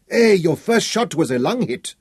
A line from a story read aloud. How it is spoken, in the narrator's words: shouted